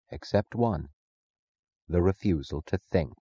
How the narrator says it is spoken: Francisco said softly

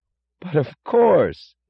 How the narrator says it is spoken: cried Lawson with startled enthusiasm

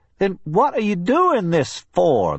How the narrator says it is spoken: the man asked, too puzzled even to scream

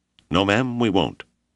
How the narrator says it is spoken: Janders said firmly

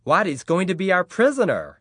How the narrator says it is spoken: Patrick shrieked, delighted at the prospect

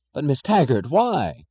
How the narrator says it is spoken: cried Chick Morrison

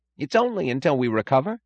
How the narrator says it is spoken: cried Holloway

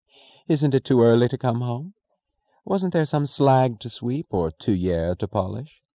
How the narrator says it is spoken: she said in a bright tone of amusement

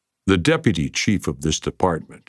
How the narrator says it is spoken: he said evenly

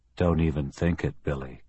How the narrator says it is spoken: Kelly said in a conversational tone

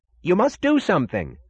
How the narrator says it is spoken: cried James Taggart

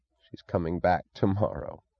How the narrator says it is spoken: he said, with a sound like a chuckle devoid of amusement

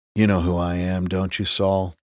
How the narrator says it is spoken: Reese asked in an almost kind voice

